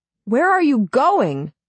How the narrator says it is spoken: I shout after him

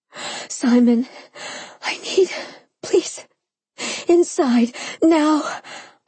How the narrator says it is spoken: I panted, almost incoherent with lust

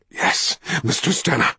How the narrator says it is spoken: cried

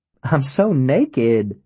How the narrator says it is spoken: she says, and laughs

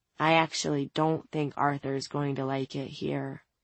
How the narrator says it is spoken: Jillian muttered in a dark voice

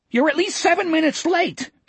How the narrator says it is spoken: Etheridge screeched at him

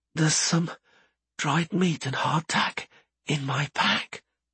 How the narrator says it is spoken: whispered Einan weakly

